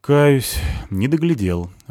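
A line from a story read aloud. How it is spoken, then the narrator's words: Sighing. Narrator (Russian): вздохнул Васагов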